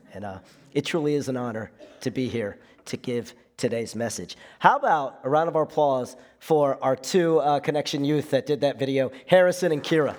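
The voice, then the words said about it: Voice rough and not normal. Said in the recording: “Forgive my voice. ... Had a head cold earlier this week. Everything's back to normal except my voice”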